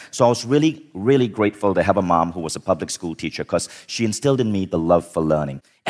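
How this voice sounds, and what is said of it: Malaysian speaker, international English accent. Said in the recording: “I speak English, unlike most Malaysians, with a more international accent”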